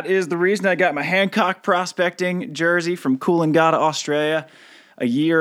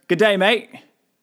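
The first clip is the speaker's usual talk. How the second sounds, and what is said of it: Attempted Australian accent. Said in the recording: “I had to break out an Australian accent. Had to try.”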